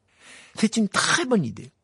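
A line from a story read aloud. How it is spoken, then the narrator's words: Brightening exclamation. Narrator (French): s'exclama Ron, dont le visage s'éclaira soudain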